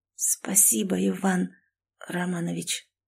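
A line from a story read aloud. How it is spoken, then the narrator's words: Frightened hoarse creak. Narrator (Russian): Проскрипела, пугаясь собственного осипшего голоса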